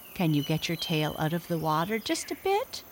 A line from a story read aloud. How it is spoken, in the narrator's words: asked my father